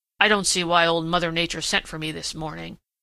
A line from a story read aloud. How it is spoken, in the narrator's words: he grumbled